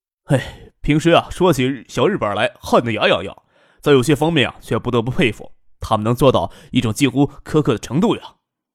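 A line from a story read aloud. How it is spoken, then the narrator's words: Soft sigh. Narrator (Chinese): 轻叹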